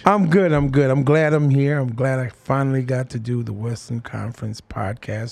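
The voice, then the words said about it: Deep bassy voice. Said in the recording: “hear the bass in my voice”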